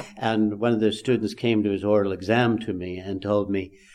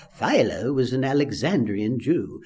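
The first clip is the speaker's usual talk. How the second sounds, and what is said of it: Put-on Jewish accent. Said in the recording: “I would give my little Jewish accent.”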